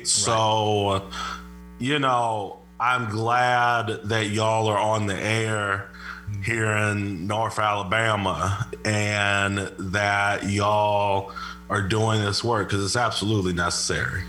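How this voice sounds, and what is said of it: Southern drawl. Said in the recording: “you're picking up your Southern accent just real quick ... now all of a sudden I'm hearing this Southern drawl come out”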